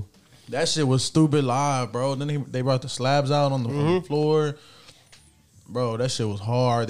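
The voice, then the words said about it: Hoarse, strained voice. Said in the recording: “I lost my voice. I mean, I'm losing my voice”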